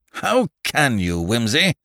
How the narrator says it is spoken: growled Parker reproachfully

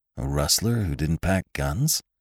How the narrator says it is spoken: muttered Venters

